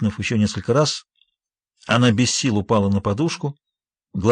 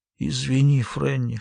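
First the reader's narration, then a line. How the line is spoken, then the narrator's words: Hoarse whisper. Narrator (Russian): хрипло прошептала она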